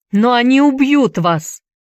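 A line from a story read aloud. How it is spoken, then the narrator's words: Shout. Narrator (Russian): закричал Энди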